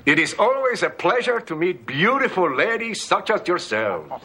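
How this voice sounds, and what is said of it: Charming foreign-accented English. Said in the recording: “With that accent, you could almost buy it.”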